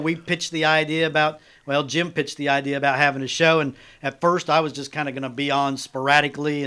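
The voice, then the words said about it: Twangy accent. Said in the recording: “I've got my twang, which is not exactly a great voice for radio”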